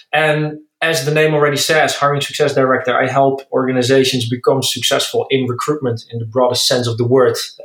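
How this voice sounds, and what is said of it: Dutch accent in English. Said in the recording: “As you maybe can hear by my accent, I'm Dutch”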